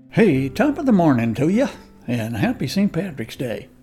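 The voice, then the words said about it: Poor put-on Irish accent. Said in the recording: “my terrible attempt at an Irish accent”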